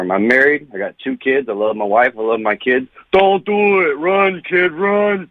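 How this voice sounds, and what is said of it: Rocky Balboa character voice impression. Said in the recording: “the Rocky Balboa impersonation”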